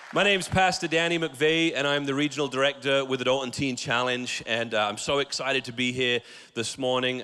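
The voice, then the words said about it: British accent. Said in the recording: “If you're wondering about the accent, by the way ... it's British, it's not Australian ... it's British.”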